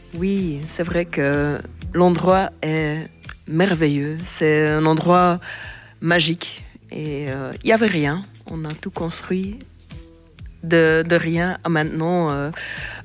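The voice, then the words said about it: Slight Flemish accent in French. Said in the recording (French): “ce petit accent de ... c'est parce qu'elle est originaire de Flandre”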